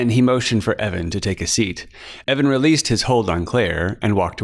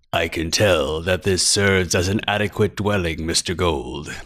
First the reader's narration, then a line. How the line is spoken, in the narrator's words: Eyepatch purred